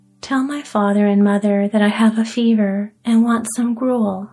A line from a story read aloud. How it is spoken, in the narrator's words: said he